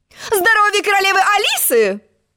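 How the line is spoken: Shrill squeal. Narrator (Russian): взвизгнула она

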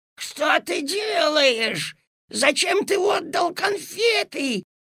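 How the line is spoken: Desperate shout. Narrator (Russian): отчаянным голосом закричала госпожа Жадность

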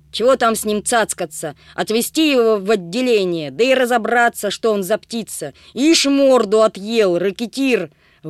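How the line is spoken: Shouted. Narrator (Russian): выкрикнул он

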